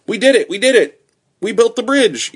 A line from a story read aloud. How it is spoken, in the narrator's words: yelled Fritz